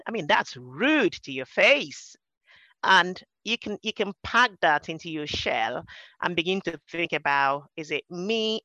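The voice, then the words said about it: Nigerian English accent. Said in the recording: “my accent was another one that people took the mickey ... They just teased my accent to death ... I came over from Nigeria and we grew up speaking English”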